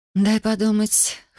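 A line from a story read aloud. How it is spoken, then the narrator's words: Hoarse. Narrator (Russian): хрипло произнесла я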